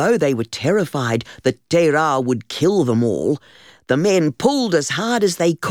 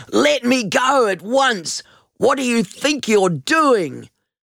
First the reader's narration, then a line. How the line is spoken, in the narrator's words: He roared and struggled, crying